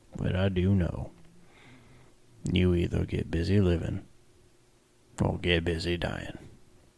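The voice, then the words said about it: Morgan Freeman impression. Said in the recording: “good Morgan Freeman impression”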